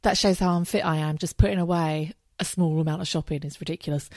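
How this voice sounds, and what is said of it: Out of breath, breathy speech. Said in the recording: “I'm a bit out of breath.”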